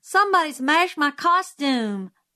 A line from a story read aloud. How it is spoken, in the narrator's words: wailed in dismay